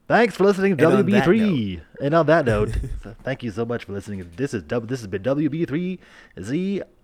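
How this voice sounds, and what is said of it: Radio announcer sign-off voice. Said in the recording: “Do your best sign off radio voice.”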